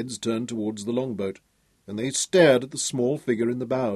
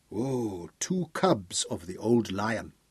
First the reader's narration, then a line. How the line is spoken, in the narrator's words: said Aberley softly